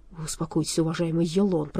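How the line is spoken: Frightened mumble. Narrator (Russian): пробормотал наконец перепуганный дворецкий

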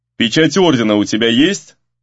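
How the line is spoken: Stern question. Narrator (Russian): строго поинтересовался староста

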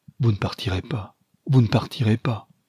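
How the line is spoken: Pleading. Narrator (French): Et lui suppliait

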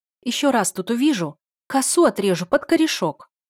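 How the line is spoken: Shouting. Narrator (Russian): крикнула я вслед Марьяне

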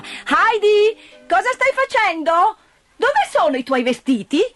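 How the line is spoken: Aunt shouting. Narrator (Italian): la zia che gridava

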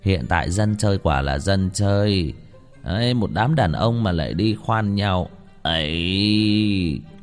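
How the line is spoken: Sighing. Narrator (Vietnamese): Một gã thổ hào không nhịn được lắc đầu thở dài

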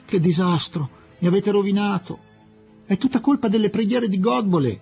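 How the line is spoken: Shouting. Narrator (Italian): gridò Fielding

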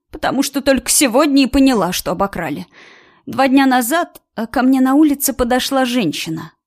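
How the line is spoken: Hesitant, uncertain. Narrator (Russian): начала она неуверенно вспоминать

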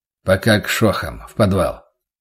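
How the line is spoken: Butcher's tired mumble. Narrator (Russian): устало пробормотал мясник

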